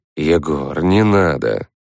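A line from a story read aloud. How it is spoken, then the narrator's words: Weary rebuke. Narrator (Russian): устало осадил меня шаман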